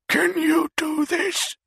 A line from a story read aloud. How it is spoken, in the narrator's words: She wheezed